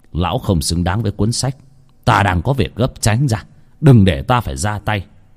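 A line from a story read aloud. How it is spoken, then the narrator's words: Stern, strong old voice. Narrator (Vietnamese): Ông Lương, mặc dù già nua nhưng cũng rất khỏe mạnh, nghiêm giọng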